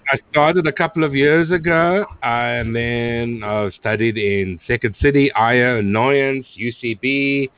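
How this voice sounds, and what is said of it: South African accent. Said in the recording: “That sounded like a South African accent.”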